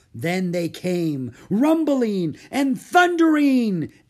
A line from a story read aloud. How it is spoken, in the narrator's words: exclaimed Mary